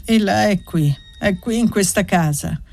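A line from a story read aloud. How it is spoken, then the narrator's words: Sad but firm. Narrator (Italian): ripeté Gantine con voce triste ma ferma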